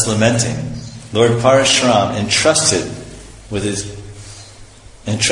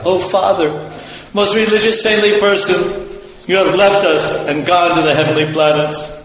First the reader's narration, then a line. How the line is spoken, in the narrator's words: Virtually bewildered by grief, anger, indignation, affliction, and lamentation, the sons of Jamadagni cried